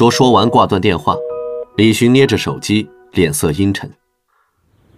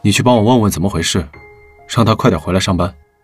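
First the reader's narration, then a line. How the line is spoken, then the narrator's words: Low voice. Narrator (Chinese): 他低声道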